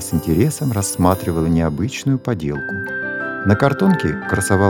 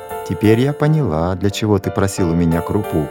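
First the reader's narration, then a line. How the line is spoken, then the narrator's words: Laughing mother. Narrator (Russian): засмеялась мама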